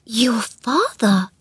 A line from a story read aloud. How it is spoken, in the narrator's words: gasped Mary